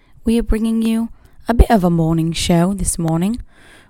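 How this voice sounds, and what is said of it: Put-on British-Australian accent. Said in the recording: “I'm quite proud of my British accent this morning. Might be a bit Australian, might be a bit British ... I am feeling a bit more Australian as I get into it”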